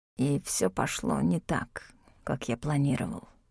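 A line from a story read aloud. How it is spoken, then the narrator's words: Barely audible whisper. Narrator (Russian): едва слышно шепнул он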